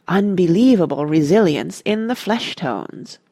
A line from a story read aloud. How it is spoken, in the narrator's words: murmured a hushed voice behind her